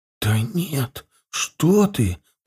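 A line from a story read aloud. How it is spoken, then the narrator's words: Whispering. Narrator (Russian): прошептала она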